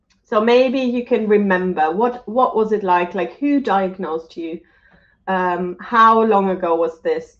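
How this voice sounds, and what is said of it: Voice still sounds unwell. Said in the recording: “my voice is still not great, but I'm slowly getting there.”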